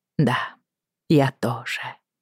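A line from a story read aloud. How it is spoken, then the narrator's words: Slow. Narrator (Russian): медленно проговорила я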